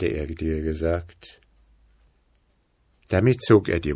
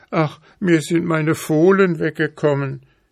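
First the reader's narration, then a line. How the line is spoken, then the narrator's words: Boy's wailing lament. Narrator (German): jammerte der Junge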